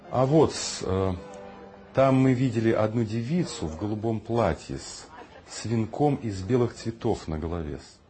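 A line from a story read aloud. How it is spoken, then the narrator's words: Plain. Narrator (Russian): сказал Егор Яковлевич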